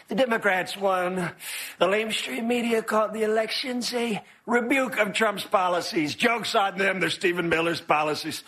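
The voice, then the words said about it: Donald Trump impression, accent slipping slightly. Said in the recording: “He kind of lost his accent a little, but that was a little bit funny. James Austin Johnson on Trump”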